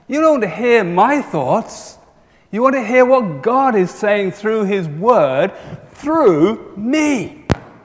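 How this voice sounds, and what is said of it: Southern accent. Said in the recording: “I'm a southerner. I sound different from Wendy.”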